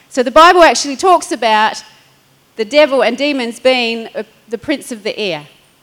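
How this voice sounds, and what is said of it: Noticeable accent. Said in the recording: “Is my accent catching me up there? A-I-R, as in floaty stuff, not air as this. Sorry for my accent”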